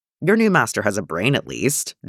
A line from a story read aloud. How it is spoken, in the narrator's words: John grumbled